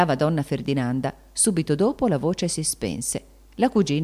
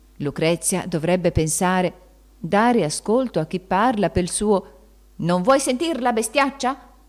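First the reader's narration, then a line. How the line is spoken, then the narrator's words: Shouted very loudly. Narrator (Italian): Queste parole furono gridate così forte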